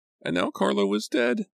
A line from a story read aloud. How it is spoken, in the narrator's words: I said, sobbing